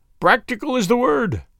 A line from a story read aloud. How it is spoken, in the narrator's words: said he, with another hateful chuckle